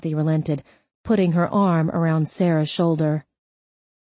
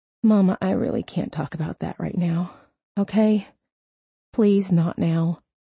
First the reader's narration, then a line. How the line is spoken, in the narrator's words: Tears came, and she mumbled